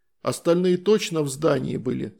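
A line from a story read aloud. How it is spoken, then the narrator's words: Plain. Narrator (Russian): спросил я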